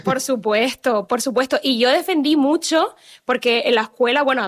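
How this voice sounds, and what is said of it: Canarian Spanish accent. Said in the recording (Spanish): “mi acento ... hablara Mariel como canaria”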